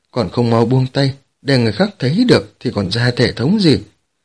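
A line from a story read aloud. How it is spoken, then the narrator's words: Loud laughing speech. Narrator (Vietnamese): Đường Phong cười lớn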